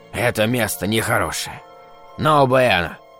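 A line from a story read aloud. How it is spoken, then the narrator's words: Mumbling. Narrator (Russian): бормотал мексиканец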